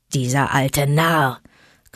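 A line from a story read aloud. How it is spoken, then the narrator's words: Father wolf growling. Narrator (German): knurrte Vater Wolf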